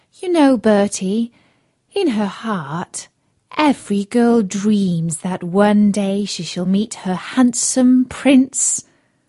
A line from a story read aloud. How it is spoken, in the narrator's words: sigh and say